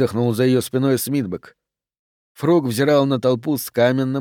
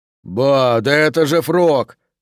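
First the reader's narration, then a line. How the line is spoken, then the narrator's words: Roar. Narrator (Russian): взревел Д'Агоста, первым нарушив молчание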